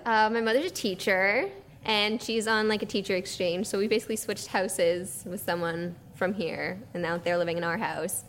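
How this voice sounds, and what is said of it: Canadian accent. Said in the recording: “So there's an accent there. ... Yeah, I'm Canadian.”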